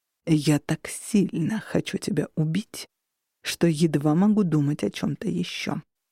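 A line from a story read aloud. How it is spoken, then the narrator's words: Murderous whisper. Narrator (Russian): закончил он убийственным шепотом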